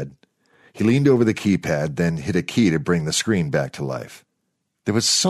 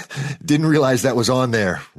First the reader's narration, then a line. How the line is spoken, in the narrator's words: Rory said, laughing nervously